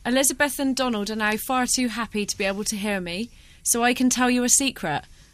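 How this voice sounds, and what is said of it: Somerset English accent. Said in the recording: “a Somerset accent ... you're from an actual place in Somerset ... I'm natural Somerset, this isn't really acting”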